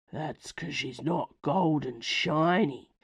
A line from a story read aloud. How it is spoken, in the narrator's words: breathed another, deeper voice